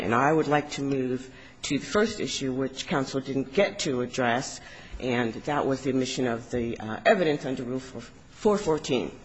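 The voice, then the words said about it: Voice affected by a cold. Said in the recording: “excuse my voice. I came down with a cold over the weekend.”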